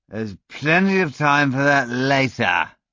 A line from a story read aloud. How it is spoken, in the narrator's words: barked